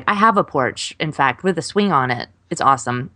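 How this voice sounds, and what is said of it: Strongly pronounced regional accent. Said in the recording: “your accent just got really pronounced”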